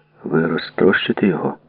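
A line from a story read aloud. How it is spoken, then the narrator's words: Gamekeeper's mumble. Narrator (Ukrainian): пробурмотів лісник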